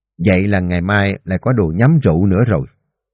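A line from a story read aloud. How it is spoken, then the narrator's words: Smiling. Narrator (Vietnamese): Ông mỉm cười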